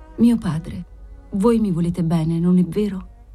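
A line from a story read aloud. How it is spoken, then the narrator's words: Very tender voice. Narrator (Italian): Bianca Maria, con una tenerissima voce gli disse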